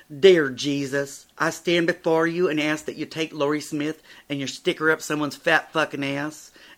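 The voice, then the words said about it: Put-on southern US accent. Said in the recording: “Adorn your southern accent now. ... That was called acting.”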